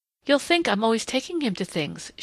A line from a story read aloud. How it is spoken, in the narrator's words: she said brightly